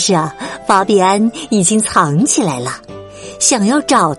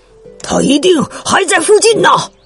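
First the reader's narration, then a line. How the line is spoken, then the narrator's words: Group shouting. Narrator (Chinese): 他们吼道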